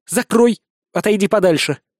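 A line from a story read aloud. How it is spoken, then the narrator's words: Sharp command. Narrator (Russian): резко приказывает Маргарита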